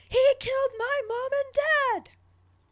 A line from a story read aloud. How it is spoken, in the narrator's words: he's reached his caps lock Harry breaking point and just screams